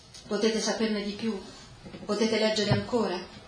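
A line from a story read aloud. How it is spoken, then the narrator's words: Plain. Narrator (Italian): chiese Segrado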